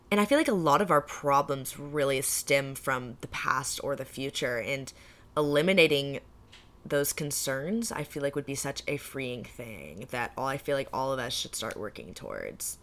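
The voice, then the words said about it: Voice cutting out, sick. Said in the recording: “My voice is starting to like cut out because I'm sick.”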